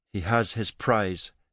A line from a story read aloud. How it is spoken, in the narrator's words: Vika said bitterly